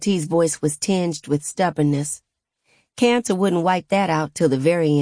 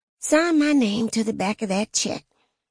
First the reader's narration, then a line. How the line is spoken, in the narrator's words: she whispered